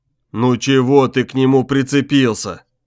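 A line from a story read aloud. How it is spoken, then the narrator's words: Melancholy deep voice. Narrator (Russian): меланхолично басил Куля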